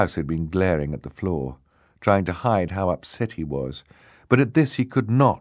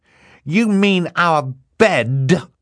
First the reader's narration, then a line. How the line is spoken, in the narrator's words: he shouted